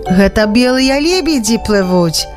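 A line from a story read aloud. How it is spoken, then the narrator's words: Explaining. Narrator (Belarusian): растлумачыў Янка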